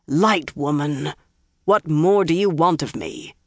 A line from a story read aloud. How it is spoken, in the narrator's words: Galad growled